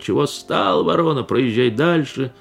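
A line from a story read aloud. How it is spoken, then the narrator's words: Nasty shouting policeman. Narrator (Russian): городовой кричал отвратительным голосом на Пантелеймона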